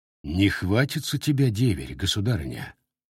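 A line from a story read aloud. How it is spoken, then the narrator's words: Quiet question. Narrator (Russian): тихо спросил Добрыня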